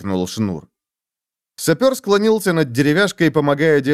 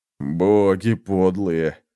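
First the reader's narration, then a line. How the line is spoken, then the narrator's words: Groaning. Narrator (Russian): застонал некромант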